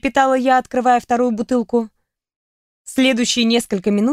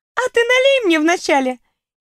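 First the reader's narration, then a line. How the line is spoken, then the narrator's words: Gleeful giggle. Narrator (Russian): хихикнула Кьяра, явно наслаждаясь свободой действий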